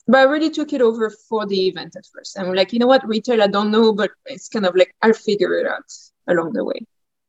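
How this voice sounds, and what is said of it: French accent. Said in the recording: “obviously you're French. ... We can hear your accent. It's a beautiful accent.”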